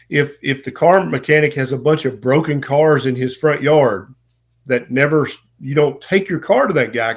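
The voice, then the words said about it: Southern American accent. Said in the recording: “I'm a Southern boy, as you may be able to tell from the accent.”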